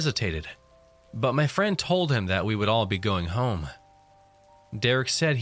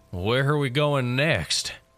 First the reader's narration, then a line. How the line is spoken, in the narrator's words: He slurred